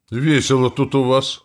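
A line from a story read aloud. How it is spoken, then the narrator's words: Wry snort. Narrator (Russian): хмыкнул я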